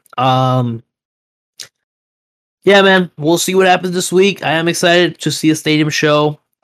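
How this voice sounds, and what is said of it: Hoarse, strained voice. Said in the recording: “My voice is still kind of shot”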